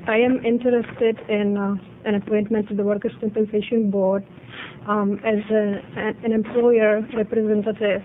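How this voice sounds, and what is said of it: Irish-sounding accent. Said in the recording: “don't be misled by my accent. ... It's just that I can't get rid of it. ... Or Irish, yeah. You may say.”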